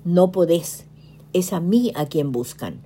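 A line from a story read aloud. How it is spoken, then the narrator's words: Firm but calm. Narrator (Spanish): expresó con tono firme pero sereno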